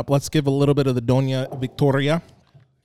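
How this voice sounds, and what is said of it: Weird put-on accent. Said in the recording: “I know I'm putting on some weird accent on that. I don't know what that accent is”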